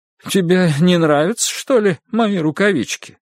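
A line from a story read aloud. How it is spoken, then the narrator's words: Sad question. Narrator (Russian): печально спросила Ида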